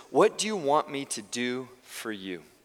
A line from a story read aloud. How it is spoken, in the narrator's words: Jesus asked